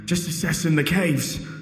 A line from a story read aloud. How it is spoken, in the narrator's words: he said in between breaths